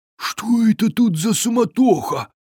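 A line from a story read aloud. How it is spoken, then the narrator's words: Muttered under breath. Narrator (Russian): пробурчал он себе под нос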